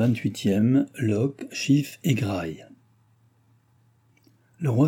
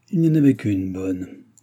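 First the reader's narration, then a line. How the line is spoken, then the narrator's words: Grumbling through teeth. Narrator (French): grommela-t-il entre ses dents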